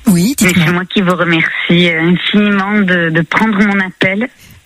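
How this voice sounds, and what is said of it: Lilting southern French accent. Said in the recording (French): “ce petit accent chantant qui nous vient du sud”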